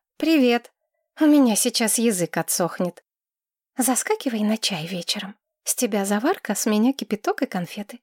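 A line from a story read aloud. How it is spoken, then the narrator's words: Whisper. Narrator (Russian): шепнула Маргарет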